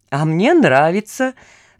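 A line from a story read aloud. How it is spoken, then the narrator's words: Said, then guffawing. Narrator (Russian): сказал вестник и захохотал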